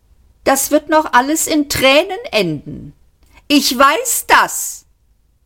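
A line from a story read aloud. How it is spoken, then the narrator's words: Shouting after them. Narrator (German): schrie ihnen Eddie nach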